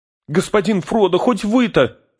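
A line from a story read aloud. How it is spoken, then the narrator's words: Terrified shout. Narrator (Russian): в ужасе выкрикнул Сэм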